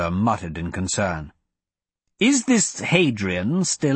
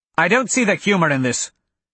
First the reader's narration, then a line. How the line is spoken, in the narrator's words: Guy snapped